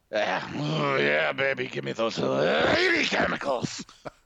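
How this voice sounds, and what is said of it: Sanders impression. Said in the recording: “a pretty convincing Sanders impression ... an impression that was okay”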